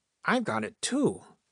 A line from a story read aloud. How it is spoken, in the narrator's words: said in an awed voice